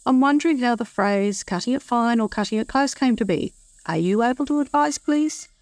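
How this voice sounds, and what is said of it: Australian accent. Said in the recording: “I like the sound of ... voice very much. I like her accent.”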